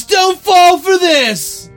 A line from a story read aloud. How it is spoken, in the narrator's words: I yelled